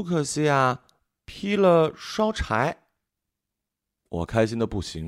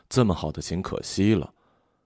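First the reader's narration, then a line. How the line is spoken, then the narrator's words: Sighing father. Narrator (Chinese): 爸爸叹气说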